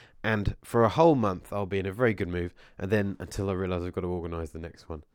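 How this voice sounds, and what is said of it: Hoarse voice from a cold. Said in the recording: “losing my voice. I've got a bit of a cold”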